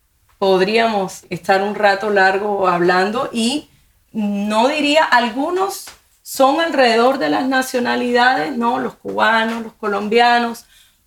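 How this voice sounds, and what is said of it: Colombian Spanish accent. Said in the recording (Spanish): “tu acento colombiano”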